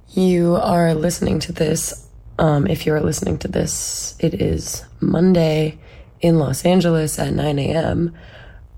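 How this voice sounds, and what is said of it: Sick-sounding voice. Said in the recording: “I am a little bit sick right now, so apologies if my voice sounds like I am sick.”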